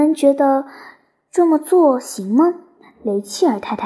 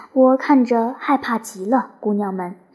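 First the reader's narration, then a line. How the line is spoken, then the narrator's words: Nervous, low voice. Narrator (Chinese): 卢比·吉利斯紧张地低声说道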